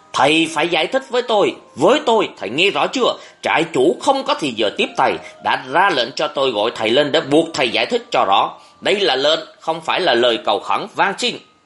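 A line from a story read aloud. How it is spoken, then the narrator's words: Loud shout. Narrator (Vietnamese): Nhật quát to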